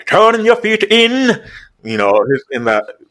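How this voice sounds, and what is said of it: Put-on Irish accent. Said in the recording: “I have an Irish running coach ... I'm trying to mimic his accent because it's hilarious”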